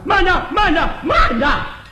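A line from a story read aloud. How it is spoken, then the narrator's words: Loud shout. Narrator (Chinese): 有人高声喊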